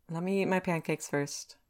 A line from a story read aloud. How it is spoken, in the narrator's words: he sighs